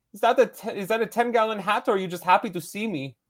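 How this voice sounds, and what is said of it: Put-on German accent. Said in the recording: “It kind of sounds like my Herzog impression a little bit ... it's German.”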